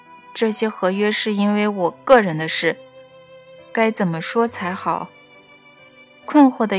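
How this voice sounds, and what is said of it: Usual voice. Nothing is said of it.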